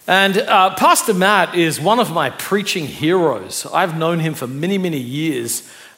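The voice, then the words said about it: Australian accent. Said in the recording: “I'm originally from Australia as well, so this is not a Brooklyn accent”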